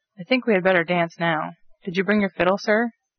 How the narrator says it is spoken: asked Mrs

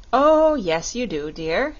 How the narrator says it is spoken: said Dorothy

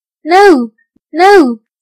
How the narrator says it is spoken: the children cried

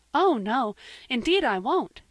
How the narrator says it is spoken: said Anne eagerly

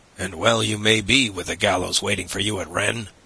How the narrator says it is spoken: growled the ferryman

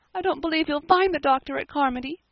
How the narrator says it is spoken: sobbed Diana

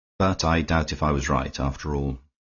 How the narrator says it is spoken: he said with a smile, and then added more sadly

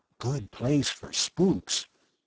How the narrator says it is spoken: Bud whispered jokingly

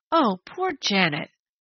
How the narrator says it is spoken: Penny groaned

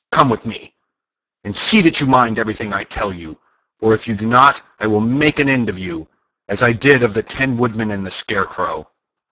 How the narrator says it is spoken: she said to Dorothy harshly and severely

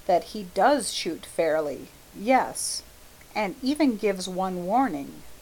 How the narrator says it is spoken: said Hastings quietly

